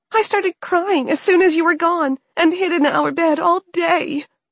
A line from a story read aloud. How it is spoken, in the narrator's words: Anna sobbed, as she started to cry more heavily